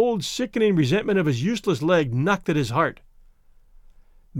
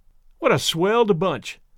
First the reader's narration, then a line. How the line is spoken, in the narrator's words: exclaimed Tom Lindsay